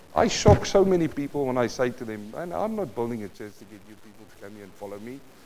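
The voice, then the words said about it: South African accent. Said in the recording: “this South African accent”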